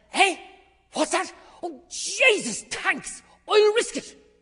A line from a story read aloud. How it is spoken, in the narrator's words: Bantam Lion suddenly snaps up and says